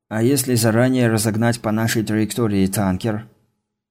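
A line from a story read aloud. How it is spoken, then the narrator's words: Sad smirking answer. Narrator (Russian): Ответил грустно усмехающийся Зарэмбо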